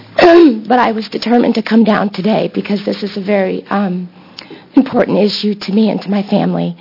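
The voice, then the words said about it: Voice sounds bad, strained. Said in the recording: “My voice is awful.”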